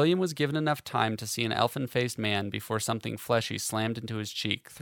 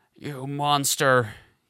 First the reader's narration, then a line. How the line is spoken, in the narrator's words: howled